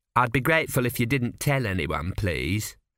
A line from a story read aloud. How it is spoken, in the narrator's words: added the Sphinx coldly